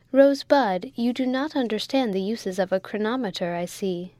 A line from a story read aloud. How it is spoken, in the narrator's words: said the mate firmly